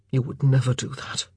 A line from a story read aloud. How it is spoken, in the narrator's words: grunted